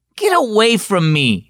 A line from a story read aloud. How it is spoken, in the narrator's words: she said crossly